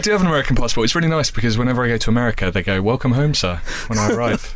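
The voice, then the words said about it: British accent. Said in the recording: “He's got a British accent”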